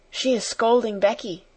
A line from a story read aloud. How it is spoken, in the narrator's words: she whispered